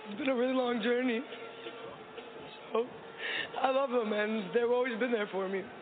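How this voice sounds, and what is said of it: Emotional, choked-up voice. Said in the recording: “I'm getting a little emotional. ... very emotional, a lot of emotions running high”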